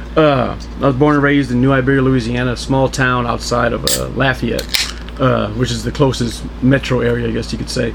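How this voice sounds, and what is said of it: Slight Southern Louisiana accent. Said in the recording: “he's got a little bit of an accent. He's not from here ... beer kind of brings out the accent, and that's why it gets thicker as the podcast goes on”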